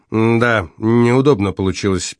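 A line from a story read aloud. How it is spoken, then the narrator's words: Muttered, confused or indignant. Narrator (Russian): пробурчал Дон Эмилио, не то растерянно, не то негодующе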